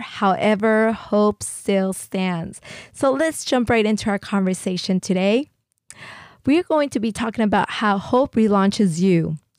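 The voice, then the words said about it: Sick, under-the-weather voice. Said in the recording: “excuse my voice. ... I am a little bit under the weather.”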